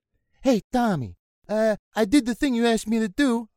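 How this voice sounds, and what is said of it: 1970s New York accent. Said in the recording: “It'll be that New York. It'll be like a 70s Serpico accent ... It's either 70s New York”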